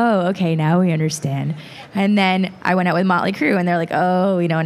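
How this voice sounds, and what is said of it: Usual voice. Nothing is said of it.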